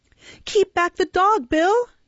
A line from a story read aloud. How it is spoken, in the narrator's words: cried Nancy